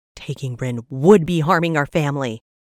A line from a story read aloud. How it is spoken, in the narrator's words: Honor growled, jutting out his chin in defiance